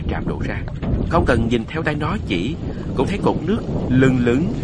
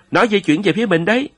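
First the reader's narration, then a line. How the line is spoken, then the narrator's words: Sudden alarmed cry. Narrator (Vietnamese): kêu lên như thức tỉnh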